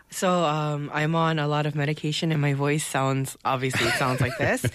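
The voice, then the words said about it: Sick, congested voice. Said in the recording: “a little bit of one of those spring colds today. I can hear it in your voice.”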